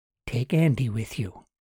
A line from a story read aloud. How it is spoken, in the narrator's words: Margaret said quietly